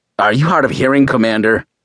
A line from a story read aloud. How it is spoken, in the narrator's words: Stone said, his voice slightly raised above normal tone